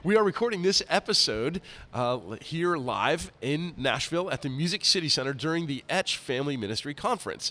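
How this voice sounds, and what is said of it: Raspy, nasal, congested voice. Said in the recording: “I still have this raspy voice nasal congestion thing going on”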